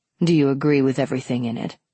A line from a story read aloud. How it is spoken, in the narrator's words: asked